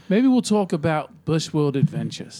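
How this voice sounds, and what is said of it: Put-on Australian accent. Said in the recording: “Nice Australian accent.”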